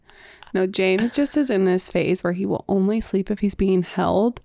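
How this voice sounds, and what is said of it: Sleepy, monotone voice. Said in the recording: “A sleepy ... monotone voice”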